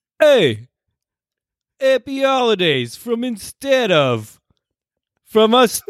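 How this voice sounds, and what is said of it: Put-on Brooklyn New York accent. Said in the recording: “your best, I don't know, New York accent? ... give me a little Brooklyn.”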